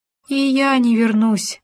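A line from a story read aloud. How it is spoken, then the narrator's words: Groaning. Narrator (Russian): простонал суслик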